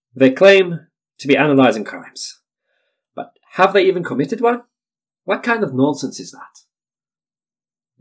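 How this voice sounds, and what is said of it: Rough put-on West African French accent. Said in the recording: “Excuse my somewhat half-assed attempt at the West African French accent.”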